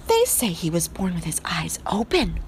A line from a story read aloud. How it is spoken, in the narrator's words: whispered